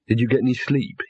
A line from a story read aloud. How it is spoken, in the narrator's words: he whispered